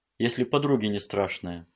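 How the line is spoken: Snort. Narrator (Russian): хмыкнул он

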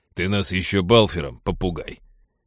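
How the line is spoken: Bearded man's snort. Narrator (Russian): фыркнул бородач

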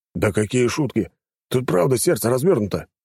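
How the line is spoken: Exclamation. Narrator (Russian): воскликнул тот

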